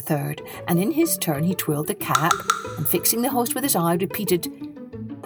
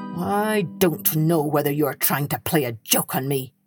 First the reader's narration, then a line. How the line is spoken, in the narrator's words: answered the innkeeper grimly